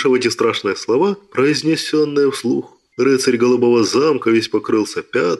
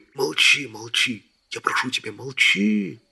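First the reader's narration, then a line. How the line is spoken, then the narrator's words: Whispering. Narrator (Russian): шептал рыцарь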